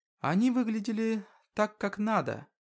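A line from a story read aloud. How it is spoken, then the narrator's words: Soft, young woman. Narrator (Russian): тихонько произнесла девушка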